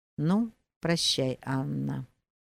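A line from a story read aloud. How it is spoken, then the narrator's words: Quiet and meek. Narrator (Russian): проговорил тихо и кротко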